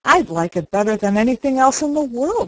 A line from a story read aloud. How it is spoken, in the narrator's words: said Sarah